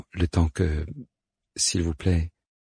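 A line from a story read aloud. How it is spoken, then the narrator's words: Timid suggestion. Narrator (French): suggère-t-elle timidement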